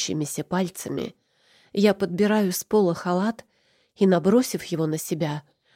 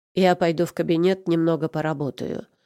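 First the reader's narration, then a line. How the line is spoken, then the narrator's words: Calmer speech. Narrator (Russian): уже более спокойно говорит Итан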